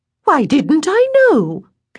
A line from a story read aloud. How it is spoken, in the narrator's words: Caroline cried